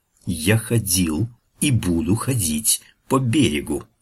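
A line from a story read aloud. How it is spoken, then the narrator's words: Hissing, whistling voice. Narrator (Russian): Из его рта, в точности похожего на разрез бритвой, из-за блестящих акульих зубов, с шипением и свистом вырывались слова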